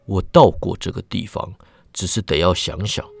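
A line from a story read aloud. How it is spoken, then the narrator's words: Troubled mumbling. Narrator (Chinese): 百草之眉头深锁，喃喃说道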